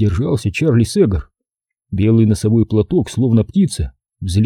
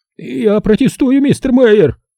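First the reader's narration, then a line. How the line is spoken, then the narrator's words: Shrieked. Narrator (Russian): провизжал он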